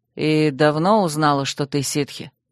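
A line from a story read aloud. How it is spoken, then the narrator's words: Sad sighing reply. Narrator (Russian): Я снова протяжно и печально вздохнула, но ответила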